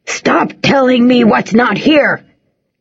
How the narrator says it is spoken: Grandad yells, suddenly forceful

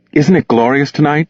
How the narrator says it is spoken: she asked

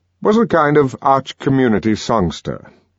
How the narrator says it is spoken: he exclaimed parenthetically

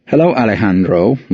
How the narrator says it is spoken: Leo says

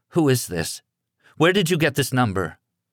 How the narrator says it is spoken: In a shaky voice, she said

